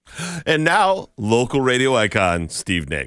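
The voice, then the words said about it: Exaggerated announcer radio voice. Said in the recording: “It's my best radio voice.”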